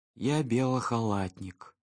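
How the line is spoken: Sleepy mumble. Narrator (Russian): сонно пробормотал Шустрик

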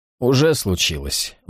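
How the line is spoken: Gloomy reply. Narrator (Russian): мрачно ответствовал Джексон

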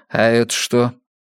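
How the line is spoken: Sighing. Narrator (Russian): Аня вздохнула

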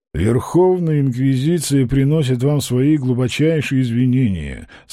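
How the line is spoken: Official, flat voice. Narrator (Russian): сказал он официальным, бесцветным голосом

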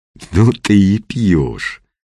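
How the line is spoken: Admiring drawl. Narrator (Russian): с восхищением протянул тот

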